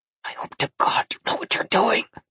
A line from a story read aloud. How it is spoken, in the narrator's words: Nikolai hissed inside my mind